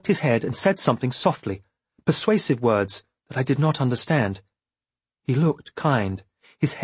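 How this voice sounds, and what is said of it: Usual voice. Nothing is said of it.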